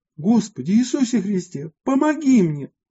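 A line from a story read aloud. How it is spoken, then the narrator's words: Holy man's exclamation. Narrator (Russian): воскликнул святый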